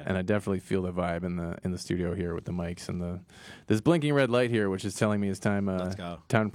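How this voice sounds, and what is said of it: Smooth, silky radio-broadcast voice. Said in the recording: “my silky voice? ... you have the perfect radio broadcast voice.”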